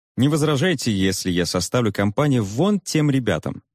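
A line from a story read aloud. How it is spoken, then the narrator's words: Plain. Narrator (Russian): спросил он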